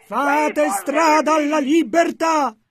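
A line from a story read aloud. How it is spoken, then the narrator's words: Shouting again. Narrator (Italian): gridò di nuovo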